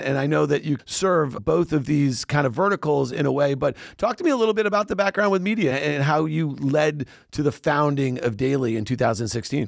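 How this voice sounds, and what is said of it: Professional radio announcer voice. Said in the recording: “your radio voice ... that professional radio voice”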